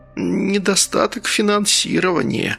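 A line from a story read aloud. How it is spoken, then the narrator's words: Strained reluctant words. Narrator (Russian): выдавил Беркович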